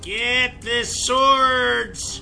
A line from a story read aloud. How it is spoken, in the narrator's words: the jackal yelled